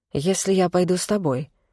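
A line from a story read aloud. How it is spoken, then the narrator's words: Low voice. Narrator (Russian): вполголоса произнесла я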